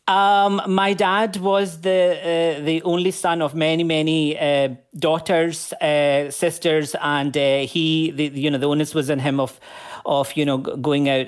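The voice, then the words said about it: Scottish Glaswegian accent. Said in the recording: “That's a Scottish accent, I hear. ... I'm a proud Glaswegian.”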